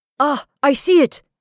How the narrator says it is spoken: cried Gaspard suddenly

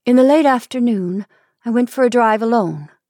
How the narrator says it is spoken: she said

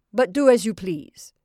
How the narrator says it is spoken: he growled

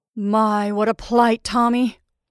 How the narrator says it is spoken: he quavered

